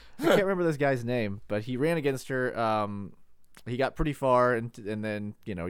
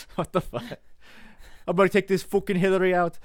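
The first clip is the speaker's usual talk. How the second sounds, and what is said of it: Put-on Irish accent. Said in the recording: “what was the Irish guy? ... you should do the whole podcast with that accent, please.”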